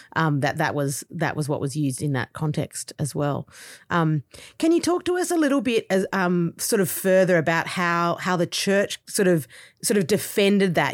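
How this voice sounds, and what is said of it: Australian accent. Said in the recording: “I'm Australian, and so obviously, as the accent kind of you know indicates”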